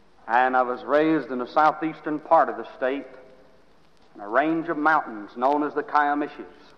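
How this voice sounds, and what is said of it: Oklahoma accent. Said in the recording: “Perhaps from my accent you can see that I'm not from Boston, but I'm from Oklahoma.”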